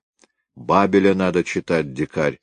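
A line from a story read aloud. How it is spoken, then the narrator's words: Plain. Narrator (Russian): ответил Котов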